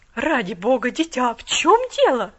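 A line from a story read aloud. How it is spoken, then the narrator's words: Exclamation. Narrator (Russian): воскликнула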